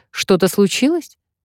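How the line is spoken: Rather sharp. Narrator (Russian): довольно резко

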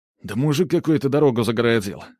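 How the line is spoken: Irritated reply. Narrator (Russian): отвечает тот раздраженно

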